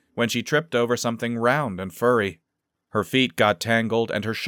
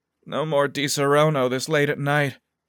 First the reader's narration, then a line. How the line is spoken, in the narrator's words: she groaned